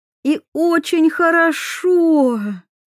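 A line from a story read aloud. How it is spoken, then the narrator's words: Fervent exclamation. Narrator (Russian): с жаром воскликнула Диана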